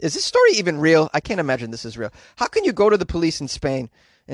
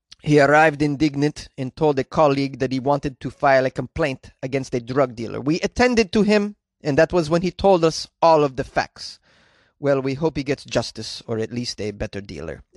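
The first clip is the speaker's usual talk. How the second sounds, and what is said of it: Impression of a Spanish police officer. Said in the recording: “this is my impression of the Spain police”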